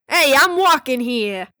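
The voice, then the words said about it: Put-on New York accent. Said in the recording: “he has a New York accent, I think.”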